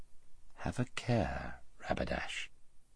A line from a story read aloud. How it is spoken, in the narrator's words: said Aslan quietly